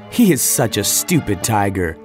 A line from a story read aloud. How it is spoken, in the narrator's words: laughed Mowgli